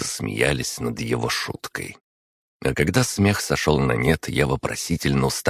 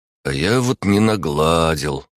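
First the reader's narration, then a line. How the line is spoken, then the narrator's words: Sad, stocky man. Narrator (Russian): грустно произнес невысокий крепыш Глеб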